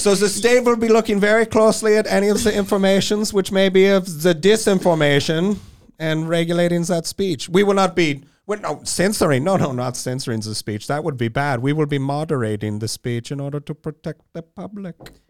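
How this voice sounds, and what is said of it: Put-on foreign accent, fairly convincing. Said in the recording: “you could do a good accent ... That is actually a pretty good one.”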